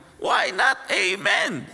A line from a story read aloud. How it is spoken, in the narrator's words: They shouted